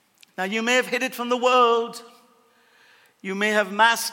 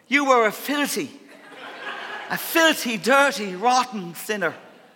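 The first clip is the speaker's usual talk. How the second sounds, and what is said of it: Put-on Irish accent. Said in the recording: “Can I say it with an Irish accent? It always sounds better.”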